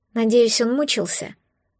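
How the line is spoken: Sigh. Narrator (Russian): вздохнула я

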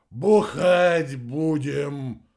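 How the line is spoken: Resigned sigh. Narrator (Russian): обреченно выдохнул Рикки

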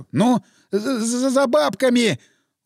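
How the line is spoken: Stuttering. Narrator (Russian): Он уже заикаться начал

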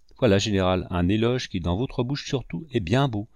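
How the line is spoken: Plain. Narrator (French): répondit Gaston

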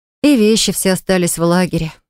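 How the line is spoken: Sighing. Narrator (Russian): вздохнула я

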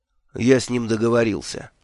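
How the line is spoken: Gloomy statement. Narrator (Russian): мрачно сообщил я Нуфлину

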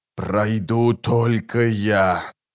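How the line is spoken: Hissing sorcerer. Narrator (Russian): прошипел чародей

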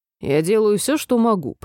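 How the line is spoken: Grumbling. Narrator (Russian): проворчал офицер

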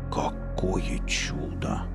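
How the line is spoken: Whisper. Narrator (Russian): прошептал Велес

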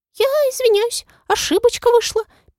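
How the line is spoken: Squeaking. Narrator (Russian): пискнула Молли

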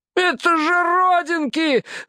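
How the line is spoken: Yelling. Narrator (Russian): завопил Фарроу

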